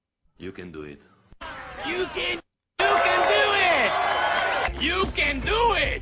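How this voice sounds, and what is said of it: Imitated Creole-style accent. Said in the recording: “you say you can do it in like a Creole sort of accent”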